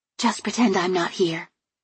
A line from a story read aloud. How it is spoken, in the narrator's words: she whispered cheerfully